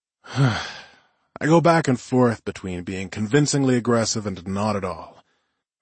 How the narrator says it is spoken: I said with a sigh

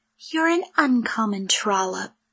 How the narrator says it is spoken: she added under her breath

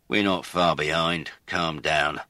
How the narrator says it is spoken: Lennox said testily

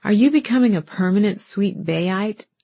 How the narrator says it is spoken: laughed

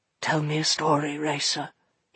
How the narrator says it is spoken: he said quietly

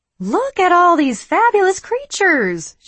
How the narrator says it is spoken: she exclaimed

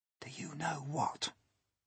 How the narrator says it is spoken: James whispered

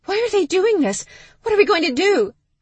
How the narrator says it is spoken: that high-pitched squeal that said Stevie was moments away from going into full panic mode

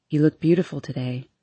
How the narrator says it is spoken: he says calmly

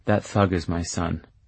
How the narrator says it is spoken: mumbles

